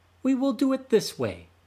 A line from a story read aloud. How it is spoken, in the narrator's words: said Turtle